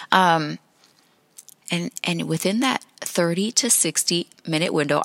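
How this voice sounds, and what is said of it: Whispering. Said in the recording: “I'm whispering right now. I started whispering... why are we whispering?”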